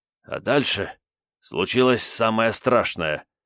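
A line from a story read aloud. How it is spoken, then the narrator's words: Slightly hoarse, agitated. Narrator (Russian): заговорил он слегка охрипшим от волнения голосом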